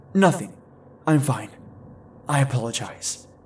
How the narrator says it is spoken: dried my eyes, and choked out

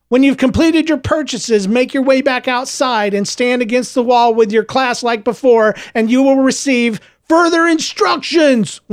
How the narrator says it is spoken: one of the students called out from the crowd

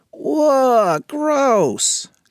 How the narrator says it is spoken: cried Nick

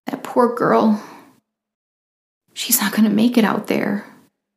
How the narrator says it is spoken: Ariel sobbed

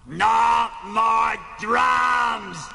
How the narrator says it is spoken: Animal bellowed

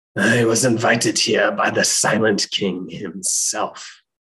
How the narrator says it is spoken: Akhmotep replied in his raspy voice

